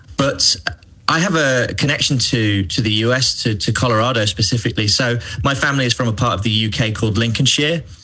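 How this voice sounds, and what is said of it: English accent. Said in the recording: “As you can probably tell from my accent, I am English.”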